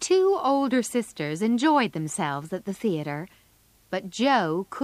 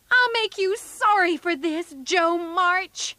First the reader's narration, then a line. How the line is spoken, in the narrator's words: Amy shouted